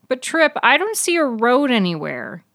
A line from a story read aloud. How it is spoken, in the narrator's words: he whined